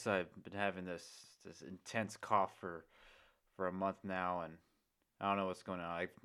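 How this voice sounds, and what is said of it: Unwell, affected speaking voice. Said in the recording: “excuse my voice”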